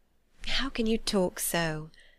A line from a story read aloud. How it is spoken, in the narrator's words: said Jane, faintly smiling